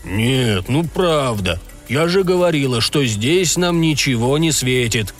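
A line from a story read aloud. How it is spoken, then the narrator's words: Angry grumble. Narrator (Russian): сердито пробурчала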